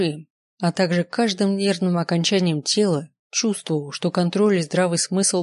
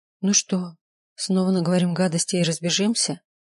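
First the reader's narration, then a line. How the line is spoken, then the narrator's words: Hoarse, fast feverish breathing. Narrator (Russian): Голос Маргариты звучал хрипло, а дыхание было частым и, пожалуй, даже лихорадочным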